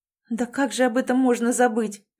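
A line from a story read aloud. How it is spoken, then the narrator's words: Sad sigh. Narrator (Russian): печально вздохнула Элизабет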